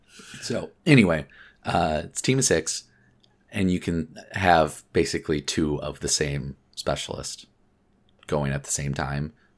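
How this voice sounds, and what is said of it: Hoarse, strained voice. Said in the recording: “I'm losing my voice. ... I guess I did talk a lot yesterday”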